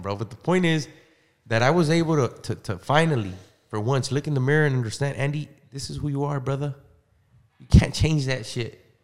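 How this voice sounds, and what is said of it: Mexican accent. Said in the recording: “I'm Mexican. ... oh, it's probably my accent.”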